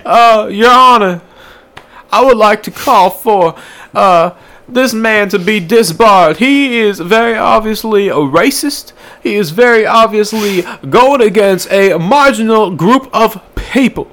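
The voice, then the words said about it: Southern Baptist lawyer character voice. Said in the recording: “I'm trying to be like a fucking like a Southern Baptist lawyer.”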